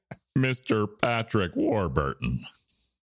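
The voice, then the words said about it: Imitates another person's voice. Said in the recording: “that's a good imitation”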